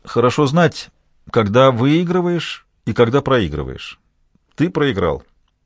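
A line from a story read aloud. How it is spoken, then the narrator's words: Calm remark. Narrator (Russian): Мужчина спокойно заметил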